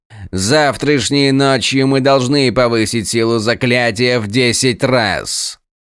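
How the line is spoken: Loud. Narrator (Russian): Громко произнес он

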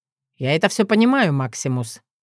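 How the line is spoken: Grumbling. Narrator (Russian): проворчал он

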